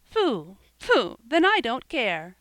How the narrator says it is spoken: cried Joel

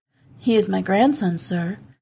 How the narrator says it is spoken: answered the woman

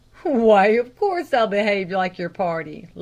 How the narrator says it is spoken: laughed the lay reader

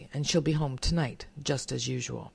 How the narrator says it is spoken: Comstock icily

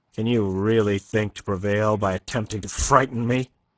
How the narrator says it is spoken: he asked, almost sneered

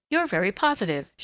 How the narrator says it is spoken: she said, laughing

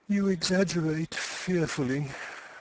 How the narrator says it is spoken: she said in a faint, weary voice

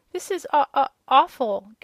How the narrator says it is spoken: gasped the little one

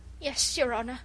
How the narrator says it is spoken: stammered the poor wretch

